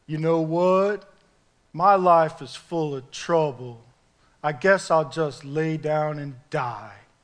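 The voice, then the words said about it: Depressed cartoon dog voice. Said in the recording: “He was the really depressed dog... my impression... That was my impression there. Hopefully that was adequate. Droopy dog”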